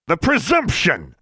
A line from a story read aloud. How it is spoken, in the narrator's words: squealed Mr